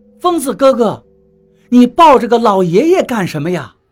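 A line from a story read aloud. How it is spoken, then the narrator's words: Sudden shout. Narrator (Chinese): 策策突然对我喊道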